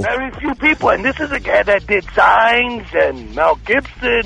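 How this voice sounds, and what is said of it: Bronx New York accent. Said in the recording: “I detect an accent, a cool sounding accent ... I'm from the Bronx, originally.”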